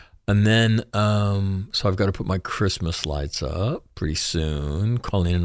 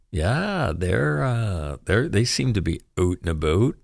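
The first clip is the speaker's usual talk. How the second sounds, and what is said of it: Canadian accent. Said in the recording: “my Canadian dialect”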